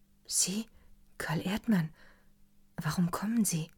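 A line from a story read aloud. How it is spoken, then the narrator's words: Whispered question. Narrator (German): fragte sie flüsternd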